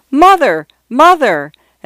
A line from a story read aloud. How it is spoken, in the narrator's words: She shouted